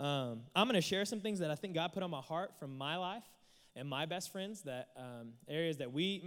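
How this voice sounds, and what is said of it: Usual voice. Nothing is said of it.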